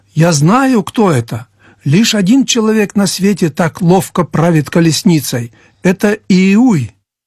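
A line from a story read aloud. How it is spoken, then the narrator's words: Excited exclamation. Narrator (Russian): дозорный воскликнул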